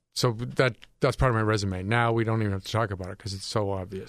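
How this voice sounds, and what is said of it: Northeastern American accent. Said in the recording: “You have a Northeastern accent? ... Yeah, for effect. I put that on once in a while.”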